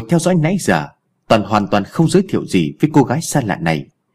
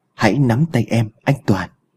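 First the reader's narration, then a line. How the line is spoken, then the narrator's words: Trembling strange voice. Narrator (Vietnamese): run rẩy đã lên tiếng, giọng nghe khác lạ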